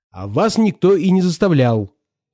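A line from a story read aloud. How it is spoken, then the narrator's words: Sharp. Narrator (Russian): сказала она резко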